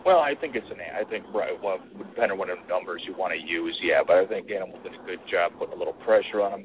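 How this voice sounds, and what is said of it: Milwaukee, Wisconsin accent. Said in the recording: “your Milwaukee accent ... everywhere I go, they can just pick it out. They're like Wisconsin or Minnesota.”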